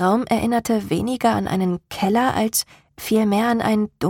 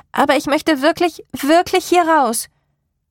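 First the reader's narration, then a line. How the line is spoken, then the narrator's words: Called out. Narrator (German): rief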